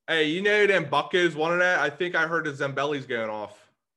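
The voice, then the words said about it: Put-on Pittsburgh accent. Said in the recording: “can do Pittsburgh dad like you wouldn't believe ... his accent”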